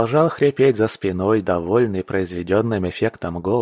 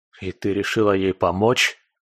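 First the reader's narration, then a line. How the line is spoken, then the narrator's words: Hiss through closed lips. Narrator (Russian): зашипел я, стараясь не разжимать губ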